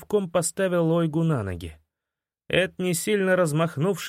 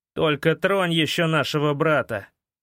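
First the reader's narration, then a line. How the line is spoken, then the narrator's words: Menacing growl. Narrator (Russian): прорычал Эд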